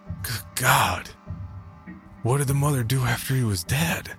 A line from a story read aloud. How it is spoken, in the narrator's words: suddenly parched throat gasped